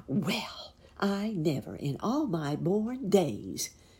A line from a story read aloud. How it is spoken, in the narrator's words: exclaimed Miss Fuzzy Wuzzy